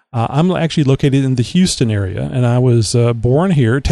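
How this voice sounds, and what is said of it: Southern US drawl accent. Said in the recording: “You can tell from my Southern drawl and, Southern accent.”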